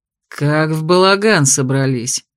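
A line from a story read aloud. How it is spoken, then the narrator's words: Displeased grumbling. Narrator (Russian): недовольно проворчал блондин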